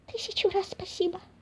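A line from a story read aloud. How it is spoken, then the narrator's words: Little mouse whispering. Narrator (Russian): прошептал лазающий мышонок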